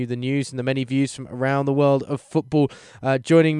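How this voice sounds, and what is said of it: Usual voice. Nothing is said of it.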